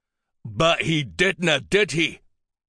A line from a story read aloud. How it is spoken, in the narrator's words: a male bellowed